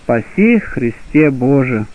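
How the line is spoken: Solemn tender choral singing. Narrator (Russian): поют в оба лика весьма умилительно и торжественно трижды по трижды

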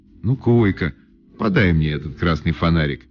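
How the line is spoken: Stern command. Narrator (Russian): строго сказала лесная птица

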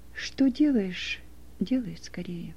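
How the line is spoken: Quiet and sorrowful. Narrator (Russian): С печалью и с сожалением взглянул на него Иисус и тихо сказал

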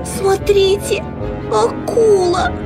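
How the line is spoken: Girl's squeak. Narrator (Russian): пискнула девочка

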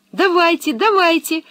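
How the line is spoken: Joyful exclamation. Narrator (Russian): воскликнула Анника, все больше радуясь тому, что вернулась домой

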